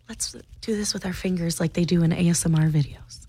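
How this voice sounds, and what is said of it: Very quiet whisper. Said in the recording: “I'm going to start speaking very quiet ... why is it okay for you to whisper?”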